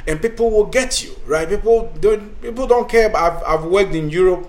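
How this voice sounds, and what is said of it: African accent. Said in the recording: “I had my African accent”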